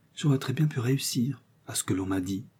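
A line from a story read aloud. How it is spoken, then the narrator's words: Quiet murmur. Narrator (French): murmura tout bas Sophie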